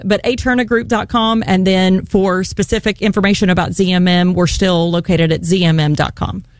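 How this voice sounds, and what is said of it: West Virginia accent. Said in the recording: “my accent, my West Virginia accent gets in my way sometimes”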